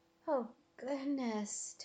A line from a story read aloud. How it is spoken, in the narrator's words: Tobin moaned